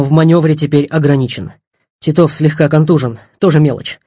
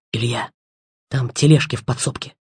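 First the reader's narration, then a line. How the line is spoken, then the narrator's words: Whisper. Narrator (Russian): шепнул Бигмер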